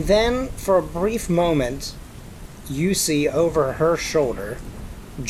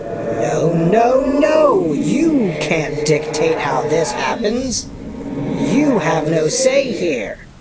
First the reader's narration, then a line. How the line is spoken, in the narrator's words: The shrieking voice says, once again